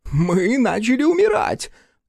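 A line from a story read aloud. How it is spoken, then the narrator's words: Shrill shriek. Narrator (Russian): взвизгнул Андерсон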